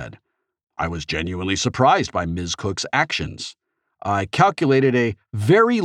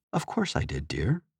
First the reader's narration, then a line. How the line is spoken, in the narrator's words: Anorak replied softly